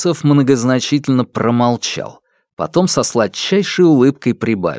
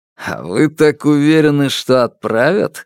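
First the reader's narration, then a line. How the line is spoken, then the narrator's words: Mocking question. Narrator (Russian): спросил Алексей насмешливо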